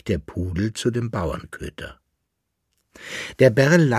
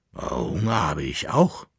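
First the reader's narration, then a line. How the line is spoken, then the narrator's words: Growling farm dog. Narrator (German): knurrte der Bauernköter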